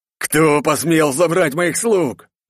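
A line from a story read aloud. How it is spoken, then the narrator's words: Roared. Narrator (Russian): взревел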